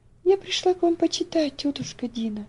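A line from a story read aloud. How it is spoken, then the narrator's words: Little girl's sweet gentle voice. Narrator (Russian): сказала маленькая девочка своим приятным нежным голосом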